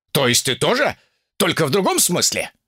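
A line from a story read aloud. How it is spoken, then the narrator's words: Snapping, grating laugh. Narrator (Russian): огрызнулся демон и засмеялся так противно, словно гвоздем водят по стеклу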